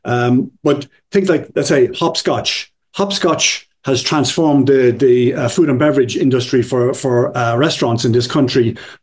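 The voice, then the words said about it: European accent. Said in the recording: “you hear from my accent, I've originally come from Europe”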